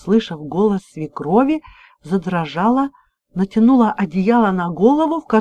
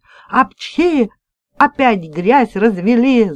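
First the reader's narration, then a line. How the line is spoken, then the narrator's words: Yelling. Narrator (Russian): орала Светлана Ильинична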